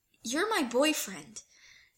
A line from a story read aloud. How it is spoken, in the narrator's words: Styles blurts out louder than necessary